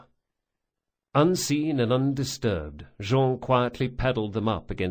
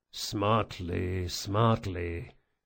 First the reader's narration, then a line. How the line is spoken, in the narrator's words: the big man muttered to himself